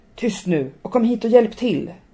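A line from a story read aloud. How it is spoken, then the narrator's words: Roared. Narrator (Swedish): röt Katarina och tog i med hela sin kroppsvikt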